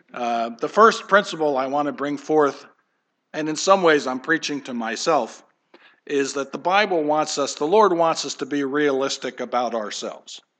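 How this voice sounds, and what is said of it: Slightly hoarse voice. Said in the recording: “I'm a little hoarse, I think I'm reacting to the pollen”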